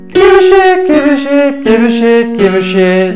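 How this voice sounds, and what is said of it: Singing in falsetto. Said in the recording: “you went into falsetto ... you came in on falsetto ... you just automatically went into very lovely falsetto”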